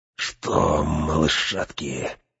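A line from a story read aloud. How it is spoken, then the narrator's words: Insinuating whisper. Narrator (Russian): вкрадчиво прошептал Грышнак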